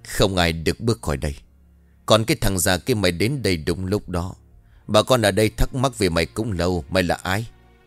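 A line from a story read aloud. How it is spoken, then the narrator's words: Harsh, menacing. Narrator (Vietnamese): Bích gằn giọng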